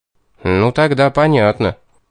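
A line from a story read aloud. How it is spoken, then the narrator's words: Satisfied grunt. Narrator (Russian): удовлетворенно хмыкнул я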